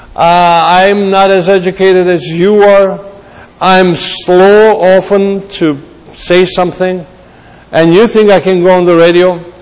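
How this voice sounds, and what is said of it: Armenian Greek accent. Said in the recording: “I have an Armenian Greek accent.”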